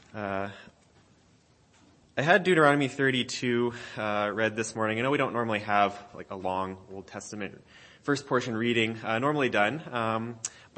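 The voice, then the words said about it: Congested, slightly off voice. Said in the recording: “I'm a little congested over the past week with my allergies, so if my voice sounds a little off”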